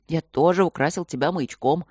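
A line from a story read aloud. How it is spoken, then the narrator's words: Amused snort. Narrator (Russian): хмыкнул Над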